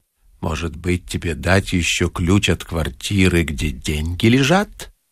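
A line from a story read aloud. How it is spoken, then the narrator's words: Quiet, passerby. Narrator (Russian): пешеход тихо сказал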